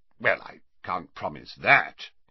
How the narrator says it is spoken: he said gruffly

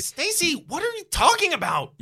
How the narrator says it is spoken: You yell angrily

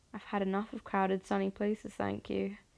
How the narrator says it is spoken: the man mumbles, head bowed towards the floor

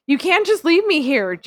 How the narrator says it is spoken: Jasmine yelled

